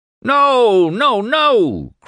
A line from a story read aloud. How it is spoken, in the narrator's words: cried Windrip